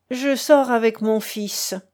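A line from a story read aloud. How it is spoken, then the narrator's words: Decisive, forestalling questions. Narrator (French): dit le comte d'un ton décidé et comme s'il voulait arrêter les questions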